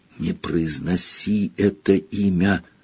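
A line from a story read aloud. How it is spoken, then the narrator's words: Frightened whisper. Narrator (Russian): испуганным шепотом попросил Рон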